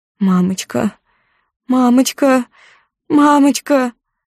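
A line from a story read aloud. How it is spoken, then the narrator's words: Screaming through tears. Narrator (Russian): кричу сквозь слезы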